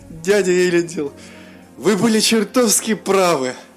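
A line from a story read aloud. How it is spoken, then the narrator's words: Laughing while speaking. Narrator (Russian): Сквозь смех промолвил Мируэль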